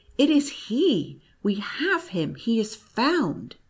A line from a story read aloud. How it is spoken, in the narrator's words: He cried